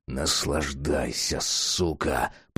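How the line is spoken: Muttered. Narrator (Russian): пробормотал Джек

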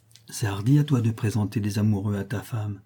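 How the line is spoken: Unsteady voice. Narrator (French): dit-il d'une voix mal assurée

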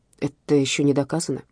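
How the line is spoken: Gentle remark. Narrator (Russian): мягко заметил Серченко

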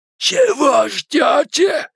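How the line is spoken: Strained, forced words. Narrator (Russian): удалось выдавить из себя Генри

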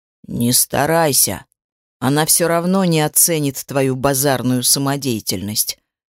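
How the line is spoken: Plain. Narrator (Russian): сказал он

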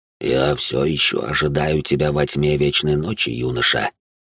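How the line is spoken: Old man's muffled whisper. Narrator (Russian): глухо прошептал старик

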